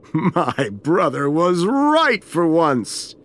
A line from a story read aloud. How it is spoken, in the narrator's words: he laughed